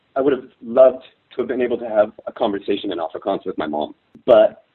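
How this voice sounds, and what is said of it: Choked-up, emotional voice. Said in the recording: “I'm getting choked up”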